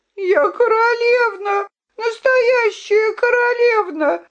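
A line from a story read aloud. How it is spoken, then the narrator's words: Sobbing. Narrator (Russian): рыдала Виолинка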